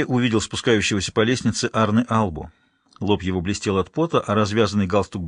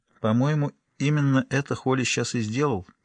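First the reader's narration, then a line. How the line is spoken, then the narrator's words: Quiet remark. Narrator (Russian): тихо заметила фру Албу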